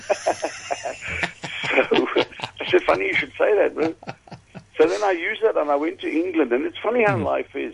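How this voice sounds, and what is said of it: South African accent. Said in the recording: “You have a bit of a strange accent. Where are you from? ... Australia. I said, no, I'm actually from South Africa.”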